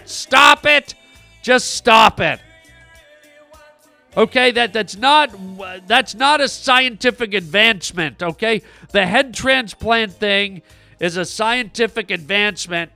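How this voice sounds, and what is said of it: Yelling, loud angry voice. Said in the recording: “Why are you yelling so much? Jesus Christ, you sound like a fucking train driving through a tunnel”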